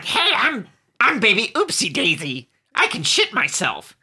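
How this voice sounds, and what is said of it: Marge Simpson-style cartoon voice. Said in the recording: “do an impression of Baby Oopsie Daisy's voice ... this Marge Simpson voice ... Is Marge Simpson in the room with us?”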